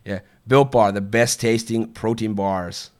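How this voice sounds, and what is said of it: Bad put-on American accent. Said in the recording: “American accent... People loved the American accent... How bad is that accent, by the way? ... is that a bad American accent?”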